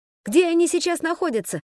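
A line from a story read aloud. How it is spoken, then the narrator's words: Shout. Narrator (Russian): закричал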